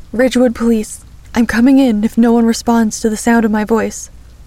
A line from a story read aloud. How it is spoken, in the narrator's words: called out once more